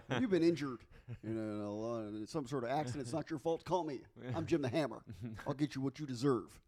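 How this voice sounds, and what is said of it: Stilted ad-reading Texas attorney voice. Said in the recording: “Sound like an attorney based out of Texas ... That's his impression of somebody who can't act. ... That's my impression of somebody who looks directly at the cue cards while they're reading”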